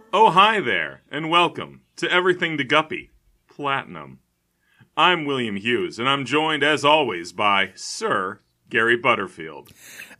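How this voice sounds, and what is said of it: Pompous rich guy voice. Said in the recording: “I'm doing a rich guy voice.”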